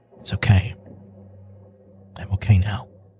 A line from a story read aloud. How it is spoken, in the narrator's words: a whisper